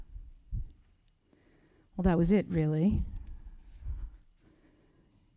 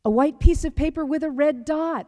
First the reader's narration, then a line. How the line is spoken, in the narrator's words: yelled